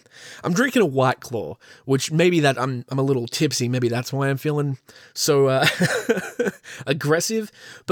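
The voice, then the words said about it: Australian accent. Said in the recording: “my beautiful Australian accent”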